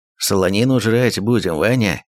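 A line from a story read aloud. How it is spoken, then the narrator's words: Rough reply. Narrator (Russian): грубо ответил Ермак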